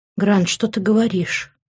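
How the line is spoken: Shaken whisper. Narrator (Russian): Немного отойдя от шока, прошептала я

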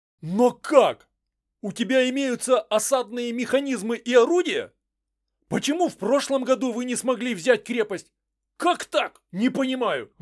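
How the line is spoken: Exclaiming. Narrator (Russian): воскликнул Хельдрик

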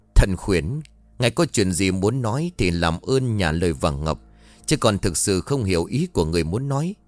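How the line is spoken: Muttering. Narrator (Vietnamese): Minh Tâm miệng lẩm bẩm

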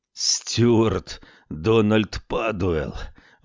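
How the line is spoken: Breathless exhale. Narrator (Russian): выдохнул он

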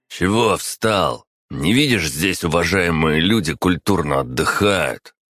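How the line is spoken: Growl. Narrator (Russian): прорычал Тимур

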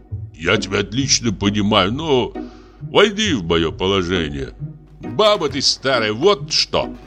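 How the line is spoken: Guffawing. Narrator (Russian): Дьякон захохотал

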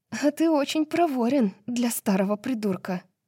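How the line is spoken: Groaning. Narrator (Russian): простонала она

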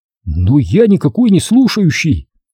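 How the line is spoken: Exclaimed. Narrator (Russian): воскликнул он

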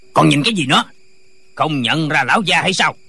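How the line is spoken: Official shouting. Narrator (Vietnamese): Viên quan quát lên

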